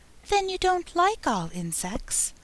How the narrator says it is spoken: went on, as quietly as if nothing had happened

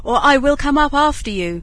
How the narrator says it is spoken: shouted Bluebeard

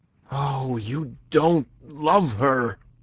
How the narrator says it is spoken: cried the other passionately

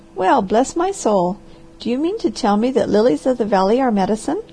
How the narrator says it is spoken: The harvester laughed

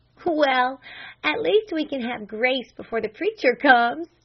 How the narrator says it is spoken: she laughed

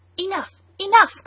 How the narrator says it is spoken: cried some

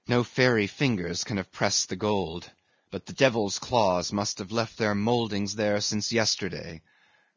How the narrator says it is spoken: murmured Starbuck to himself

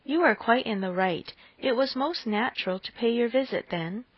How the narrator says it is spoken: Forcing herself to speak, she calmly said

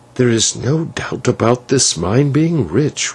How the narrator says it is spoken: whispered the señor

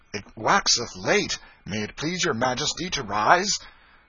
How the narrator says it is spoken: The happy and astonished mother exclaimed

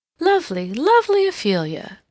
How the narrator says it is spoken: she exclaimed

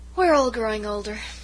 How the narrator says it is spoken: sighed Miss Cornelia

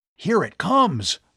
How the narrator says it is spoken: Bud yelled suddenly

